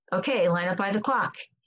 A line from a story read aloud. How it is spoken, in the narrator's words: he said